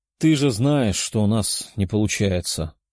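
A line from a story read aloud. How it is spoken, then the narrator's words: Sighing. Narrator (Russian): вздохнул он, понимая гнев дочери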